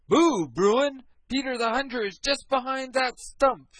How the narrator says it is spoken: shouted the fox right into the bear's ear

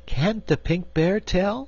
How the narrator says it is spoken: asked Cake anxiously

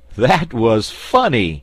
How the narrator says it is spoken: laughed Button-Bright

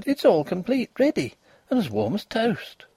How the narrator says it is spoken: she cried

